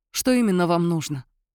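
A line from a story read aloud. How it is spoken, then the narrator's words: Shaky-breathed question. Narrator (Russian): Неровно вздохнув, спросила Анна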